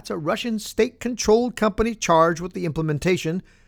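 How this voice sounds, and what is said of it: Usual voice. Nothing is said of it.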